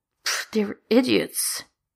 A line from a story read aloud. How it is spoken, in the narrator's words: he mumbles